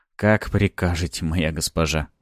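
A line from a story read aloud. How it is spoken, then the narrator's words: Snide mutter. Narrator (Russian): ехидно пробормотал я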